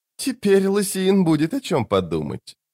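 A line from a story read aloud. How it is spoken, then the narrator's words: Giggling. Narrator (Russian): Он снова хихикнул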